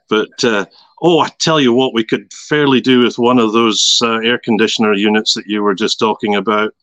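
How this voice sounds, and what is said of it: Scottish accent. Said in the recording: “you'll gather from the accent that my origins are slightly further north from Edinburgh”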